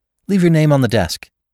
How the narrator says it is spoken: said quickly

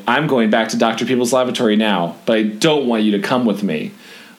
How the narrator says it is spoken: Denny, you say very calmly

